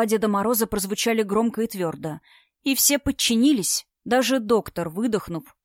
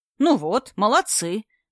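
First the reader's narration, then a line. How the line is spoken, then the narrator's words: Irritated praise, from screen. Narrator (Russian): раздраженно похвалил их Дед Мороз с экрана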